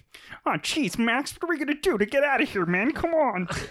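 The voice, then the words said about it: Cartoon character voice, Kermit-like. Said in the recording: “my impression of PJ Max's friend in a Goofy movie ... a good Kermit kind of in there a little bit ... A little fatter, though.”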